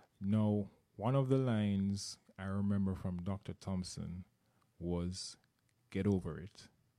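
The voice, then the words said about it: Jamaican accent. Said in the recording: “I'm from Jamaica. You may have heard the accent.”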